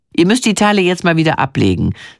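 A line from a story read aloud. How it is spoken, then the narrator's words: Plain. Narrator (German): sagt der Redakteur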